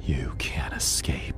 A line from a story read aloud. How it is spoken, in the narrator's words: the voice hissed